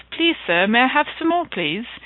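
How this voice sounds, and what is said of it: Put-on English accent. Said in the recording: “I'll try and do this in my best accent possible, in the English accent”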